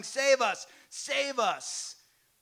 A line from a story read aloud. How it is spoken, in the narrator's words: people shouting his praise, shouting